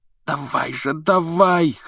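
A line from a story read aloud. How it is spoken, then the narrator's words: Hoarse rasp. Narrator (Russian): хрипел он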